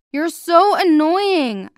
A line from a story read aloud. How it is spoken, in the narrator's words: I screamed